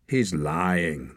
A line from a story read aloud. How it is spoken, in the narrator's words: the young man said coldly